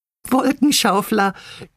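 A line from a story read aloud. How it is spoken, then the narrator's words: Giggling together. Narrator (German): kicherten Bibi, Bini und Bonnie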